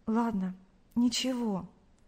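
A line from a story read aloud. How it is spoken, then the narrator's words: Confused mumble. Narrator (Russian): растерянно пробормотала Кристина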